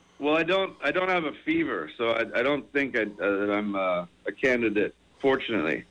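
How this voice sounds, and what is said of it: Scratchy, hoarse voice. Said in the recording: “Can you hear how scratchy my voice is? ... Yes, it's terrible. ... you sound as bad as your outgoing message”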